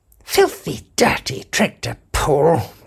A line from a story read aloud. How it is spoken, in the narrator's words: muttered Arthur